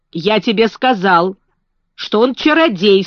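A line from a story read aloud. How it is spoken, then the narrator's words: Stern. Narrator (Russian): строго сказал Колин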